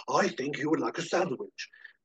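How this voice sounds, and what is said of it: Daniel Plainview impression. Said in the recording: “doing a Daniel Plainview impression ... do one as Daniel Plainview and from There Will Be Blood ... sounds like he's doing a Daniel Plainview”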